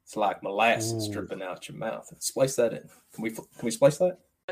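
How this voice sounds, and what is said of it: Put-on Florida panhandle Southern accent. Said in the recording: “Nice accent. You sound like Forrest Gump. ... You've got this kind of like Florida panhandle thing going”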